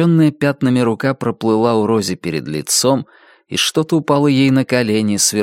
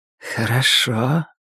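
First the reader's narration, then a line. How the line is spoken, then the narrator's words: Sweet, slightly hoarse voice. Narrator (Russian): все тот же сладкий и слегка хриплый голос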